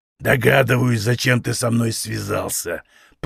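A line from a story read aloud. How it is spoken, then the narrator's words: Growling, menacing. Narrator (Russian): прорычал краснокожий бугай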